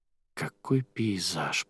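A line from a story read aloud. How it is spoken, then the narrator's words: Whisper. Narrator (Russian): прошептала Арадия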